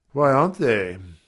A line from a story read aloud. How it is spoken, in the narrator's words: said I wearily